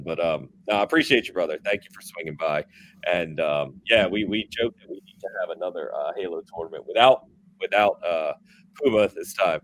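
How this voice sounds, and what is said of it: Sick, strained failing voice. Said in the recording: “are you sick? ... I'm really sick ... I can tell ... my voice is going”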